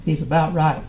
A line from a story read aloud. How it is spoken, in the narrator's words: the man said